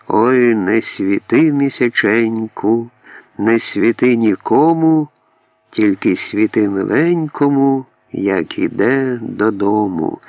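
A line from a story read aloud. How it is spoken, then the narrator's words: Loud, deep chest-voice singing. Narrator (Russian): она послушно, опять во весь могучий голос, огласила окрестности своим грудным глубоким голосом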